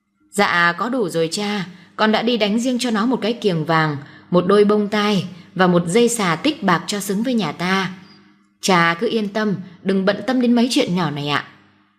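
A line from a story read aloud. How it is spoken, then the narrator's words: Resigned smiling reply. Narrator (Vietnamese): bà không dám cãi lại lời cha chồng, đành mỉm cười rồi nói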